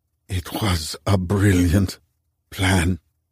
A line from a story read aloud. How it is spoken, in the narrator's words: Ali whispered